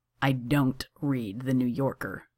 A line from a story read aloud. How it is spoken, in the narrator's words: said Johnny slowly